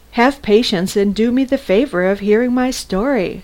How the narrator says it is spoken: said

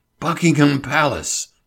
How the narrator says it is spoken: he gasped

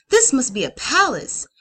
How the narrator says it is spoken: Quartery gasped

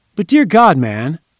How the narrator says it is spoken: exclaimed

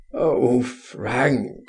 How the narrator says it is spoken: he groaned

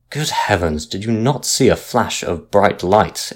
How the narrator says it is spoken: exclaimed the captain angrily, for he thought he was being made a fool of

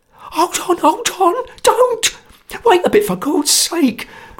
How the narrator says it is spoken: cried Sotcher in a sweat of terror

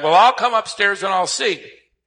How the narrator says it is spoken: The 94-year-old was downstairs in the kitchen, and she hollered back

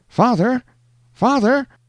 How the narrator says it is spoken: exclaimed a piercing cry from out of the mist

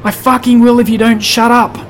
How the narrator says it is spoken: the man yelled back

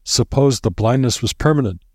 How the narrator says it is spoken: He groaned at the thought

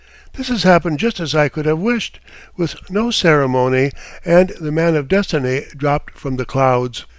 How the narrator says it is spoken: exclaimed

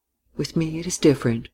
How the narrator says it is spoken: she said quietly

